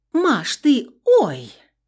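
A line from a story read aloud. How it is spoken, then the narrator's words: Sudden cry. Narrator (Russian): вскрикнула Юля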